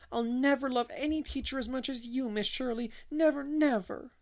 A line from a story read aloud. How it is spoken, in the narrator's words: heard the childish wail